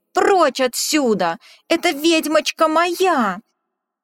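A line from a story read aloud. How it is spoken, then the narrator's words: Shout. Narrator (Russian): Он крикнул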